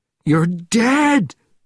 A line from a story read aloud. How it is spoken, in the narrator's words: repeated, screaming, in panic